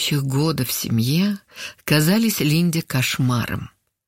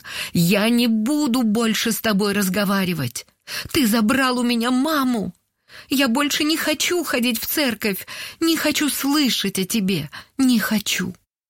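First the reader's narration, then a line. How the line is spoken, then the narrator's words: Tearful grieving shout. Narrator (Russian): Сквозь слезы она прокричала в пасмурное небо после похорон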